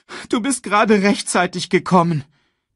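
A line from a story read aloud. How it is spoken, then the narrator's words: Sobbing. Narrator (German): schluchzte Simba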